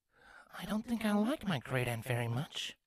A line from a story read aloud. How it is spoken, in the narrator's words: Twilight muttered to herself